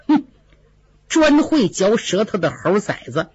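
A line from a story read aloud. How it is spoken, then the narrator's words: Smiling through gritted teeth. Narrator (Chinese): 尤二姐脸上笑着，却暗暗咬牙骂道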